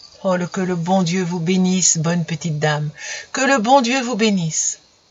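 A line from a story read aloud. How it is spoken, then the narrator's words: Sobbing repetition. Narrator (French): Elle répétait constamment les mêmes paroles en sanglotant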